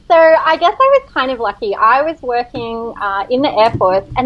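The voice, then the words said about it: Speaks with a noticeable accent. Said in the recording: “My accent probably says it funny anyway... I love hearing your accent, so beautiful”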